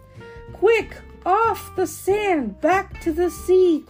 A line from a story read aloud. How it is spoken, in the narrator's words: cried the snail